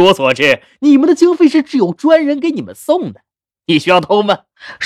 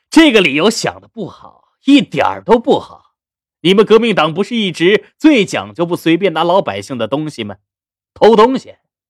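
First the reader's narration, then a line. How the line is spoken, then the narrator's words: Laughing amused voice. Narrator (Chinese): 徐师长笑得更加厉害，接着道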